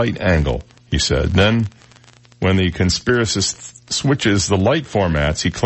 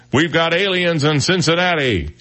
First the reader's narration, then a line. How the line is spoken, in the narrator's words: The cameraman shouts